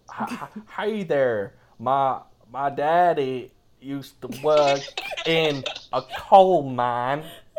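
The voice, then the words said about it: Put-on mixed American Southern accent. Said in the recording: “I have a very mixed accent. ... Pretty good, right? ... My impeccable American accent”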